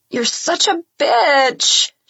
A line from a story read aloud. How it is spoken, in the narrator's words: she groans